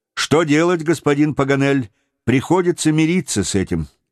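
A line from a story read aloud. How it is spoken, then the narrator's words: Plain. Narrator (Russian): ответил Джон Манглс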